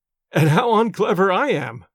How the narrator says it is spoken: said the clergyman, laughing

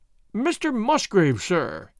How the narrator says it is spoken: he cried, in a voice which was hoarse with emotion

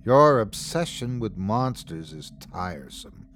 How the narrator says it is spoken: sighed his father

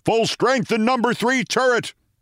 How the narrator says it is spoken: shouted the commander

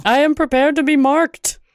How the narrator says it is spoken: Green to yell

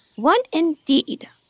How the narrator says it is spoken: said the Dormouse indignantly

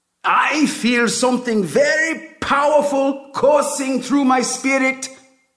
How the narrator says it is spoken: the prophet yells

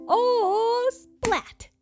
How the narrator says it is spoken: I can hear my daddy scream

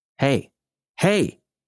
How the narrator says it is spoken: he almost shouted

